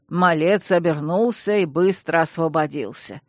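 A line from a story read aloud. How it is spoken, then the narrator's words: Wry snort, butler. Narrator (Russian): хмыкнул дворецкий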